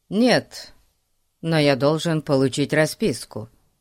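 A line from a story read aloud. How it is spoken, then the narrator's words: Official, formal tone. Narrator (Russian): официальным тоном сказал Фати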